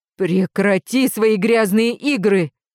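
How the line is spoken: Growling. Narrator (Russian): прорычала я

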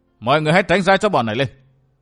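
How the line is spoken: Raised voice. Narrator (Vietnamese): Vũ Á Vinh ngước lên nhìn các bảo đinh trên tường bảo, cao giọng nói

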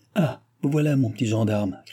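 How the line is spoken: Shouted. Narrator (French): cria Jean

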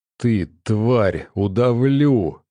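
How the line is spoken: Furious hiss. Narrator (Russian): зашипела Ольга

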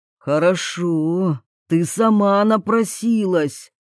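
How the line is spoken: Threatening hiss. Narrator (Russian): Прошипел он угрозу

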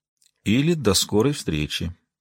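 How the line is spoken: Quiet. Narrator (Russian): тихо произнес Арлин

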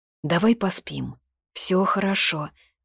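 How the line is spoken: Whispered. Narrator (Russian): прошептала

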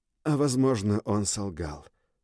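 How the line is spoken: Hoarse. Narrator (Russian): добавила хрипло

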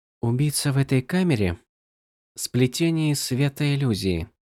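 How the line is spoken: Whisper. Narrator (Russian): прошептала Навани

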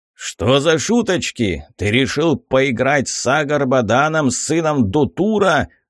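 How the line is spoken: Furious roar. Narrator (Russian): рассвирепев, взревел я

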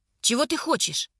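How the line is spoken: Sharp question. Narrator (Russian): резко спрашиваю я

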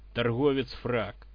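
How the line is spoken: Man's snorting smirk. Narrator (Russian): хмыкнул торпеда, брюнет лет 35, бывший таежный охотник

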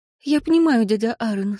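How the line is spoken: Sad sigh. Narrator (Russian): сказала она, грустно вздохнув

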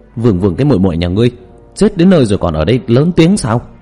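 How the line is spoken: Trembling, bold loud scolding. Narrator (Vietnamese): Hòa thượng kia cả người run rẩy, liền to gan lớn tiếng mắng

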